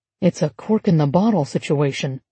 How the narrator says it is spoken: someone muttered

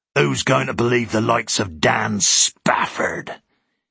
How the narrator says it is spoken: came with a manufactured sneer

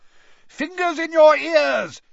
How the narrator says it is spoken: bellowed Mr

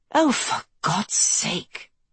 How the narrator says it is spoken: Kelsey breathed

